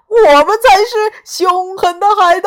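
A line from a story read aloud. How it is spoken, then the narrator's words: Group shouting. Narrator (Chinese): 他们大叫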